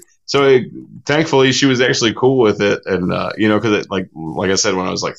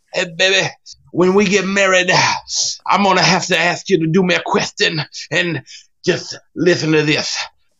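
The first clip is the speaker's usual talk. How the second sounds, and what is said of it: Imitates another person's voice. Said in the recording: “I had to do the Dusty Rhodes voice.”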